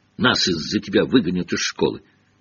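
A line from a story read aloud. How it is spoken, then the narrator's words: Gleeful cackling. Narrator (Russian): Пивз радостно закудахтал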